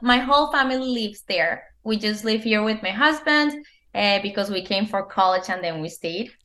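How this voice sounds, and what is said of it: Colombian accent. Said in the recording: “As you can see by my accent, I'm from Colombia.”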